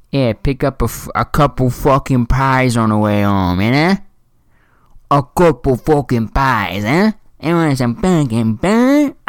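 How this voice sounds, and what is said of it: Put-on bad New York accent. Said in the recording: “That was in my New York accent. It was bad”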